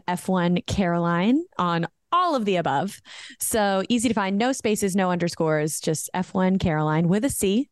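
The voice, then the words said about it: American accent often mistaken for British. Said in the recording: “a lot of people think that I am British ... your accent is beautiful ... my American accent.”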